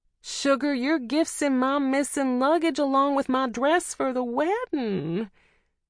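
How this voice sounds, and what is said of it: Exaggerated theatrical wailing drawl. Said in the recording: “I wail theatrically in an exaggerated drawl.”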